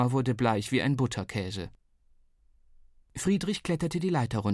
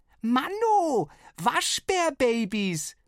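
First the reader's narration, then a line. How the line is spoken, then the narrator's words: Delighted roar. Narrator (German): brüllte Flo entzückt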